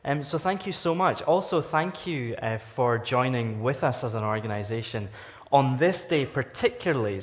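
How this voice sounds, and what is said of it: Lilting Scottish accent. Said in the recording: “this Scottish lilting accent”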